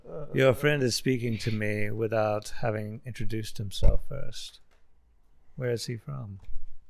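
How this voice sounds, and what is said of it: Strange, far-eastern-sounding put-on accent. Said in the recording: “That's a very strange accent for this region ... Far east, I think.”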